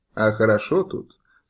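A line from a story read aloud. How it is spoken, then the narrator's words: Plain. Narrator (Russian): сказал Нечай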